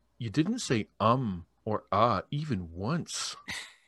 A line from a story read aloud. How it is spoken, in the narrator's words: in stunned silence for what felt like at least 3 minutes, until one guy said